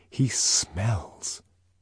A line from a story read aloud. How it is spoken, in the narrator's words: she lowered her voice